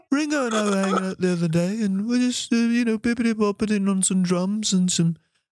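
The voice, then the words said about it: Imitated Liverpool accent. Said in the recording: “Maybe I was doing Paul McCartney ... It's Liverpool.”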